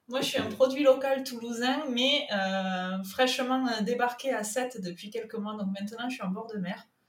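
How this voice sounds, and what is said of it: Southern French accent. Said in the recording (French): “Mon accent me trahit, il est du sud.”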